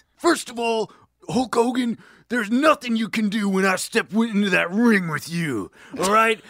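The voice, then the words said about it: Imitates a pro wrestler's voice. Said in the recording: “do that voice ... I think I'm doing Randy Macho Man Savage.”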